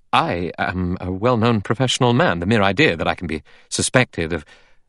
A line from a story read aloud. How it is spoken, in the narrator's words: Armstrong said quickly